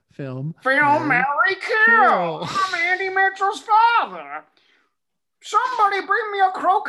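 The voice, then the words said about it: Imitates another person's voice. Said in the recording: “your impression of your father ... I'll come up with a voice”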